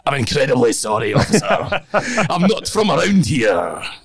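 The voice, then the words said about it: Exaggerated Scottish accent. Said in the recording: “I became the most Scottish person I've ever been in my life”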